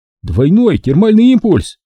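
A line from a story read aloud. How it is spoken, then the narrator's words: Shouted across the hall. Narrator (Russian): крикнул он на весь зал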